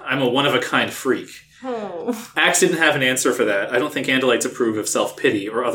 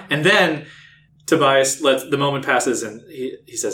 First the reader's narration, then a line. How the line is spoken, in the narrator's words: I sighed